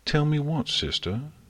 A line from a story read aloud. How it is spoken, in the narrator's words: Celestia said calmly